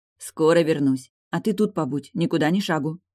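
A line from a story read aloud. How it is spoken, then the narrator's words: Stern. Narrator (Russian): сказала строго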